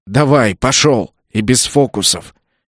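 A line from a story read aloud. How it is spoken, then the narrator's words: Low words through teeth. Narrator (Russian): процедил в ухо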